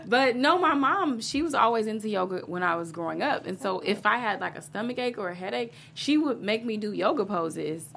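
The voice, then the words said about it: Slight twang accent. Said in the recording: “I kind of have a little bit of an accent, a little twang there”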